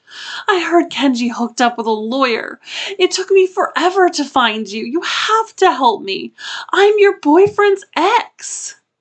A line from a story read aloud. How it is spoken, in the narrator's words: he loudly sobbed